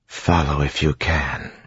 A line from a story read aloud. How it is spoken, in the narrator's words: she whispered